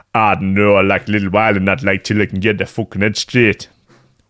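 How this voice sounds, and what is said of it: Weird put-on accent. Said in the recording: “Weird accent.”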